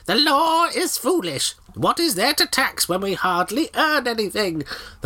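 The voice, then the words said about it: Witch character voice. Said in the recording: “I'll do a witch voice. Why not do a witch voice?”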